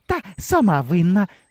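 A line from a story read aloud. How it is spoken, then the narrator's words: Cheerful jabbering. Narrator (Ukrainian): весело заджерготіла Грибенючка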